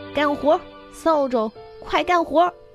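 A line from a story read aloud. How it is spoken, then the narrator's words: Shouting. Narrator (Chinese): 对着扫帚喊道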